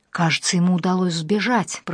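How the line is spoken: Whisper. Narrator (Russian): прошептала я

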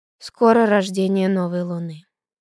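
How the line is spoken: Sighing. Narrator (Russian): вздохнул Гинзбург

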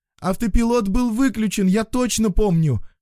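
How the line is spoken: Shouted after someone. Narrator (Russian): крикнула Карина вдогонку

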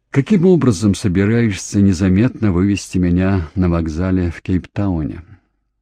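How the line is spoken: Sighing. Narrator (Russian): вздохнув, добавил

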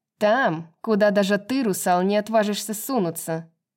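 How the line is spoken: Sly mocking. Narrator (Russian): Ехидно усмехнулась Пипа

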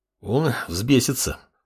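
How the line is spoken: Sighing. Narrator (Russian): вздохнул предводитель проклятых

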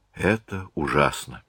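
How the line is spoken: Flat colorless mumble. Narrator (Russian): пробормотала Марианна бесцветным голосом

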